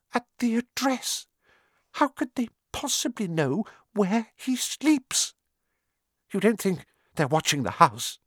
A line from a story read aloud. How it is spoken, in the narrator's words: Aunt Petunia was saying in a quivering voice